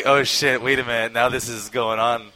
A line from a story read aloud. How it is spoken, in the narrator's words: as we were laughing about it, we were like